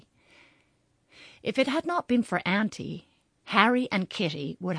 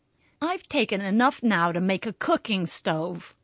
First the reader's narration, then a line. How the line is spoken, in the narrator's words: groaned Kitty, who hated being dosed